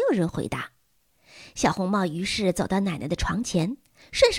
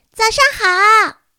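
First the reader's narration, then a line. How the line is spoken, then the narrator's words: Loud call. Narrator (Chinese): 他大声的叫了起来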